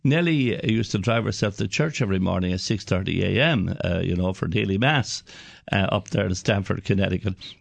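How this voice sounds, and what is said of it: Irish Cork accent. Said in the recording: “County Cork in Ireland, which is where I'm from, in case you wonder where this accent is from”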